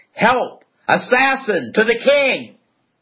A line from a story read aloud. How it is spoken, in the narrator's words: yelled